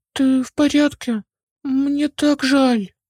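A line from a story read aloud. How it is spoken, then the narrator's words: Worried exclamation. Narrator (Russian): воскликнул Арис, обеспокоенно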